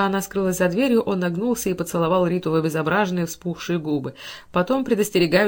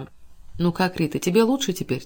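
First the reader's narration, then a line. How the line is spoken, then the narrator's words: Quiet question. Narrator (Russian): тихо спросил он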